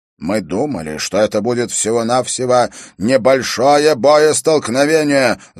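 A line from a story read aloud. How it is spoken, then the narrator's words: Angry spluttering shout. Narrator (Russian): злобно выкрикнул он, брызжа слюной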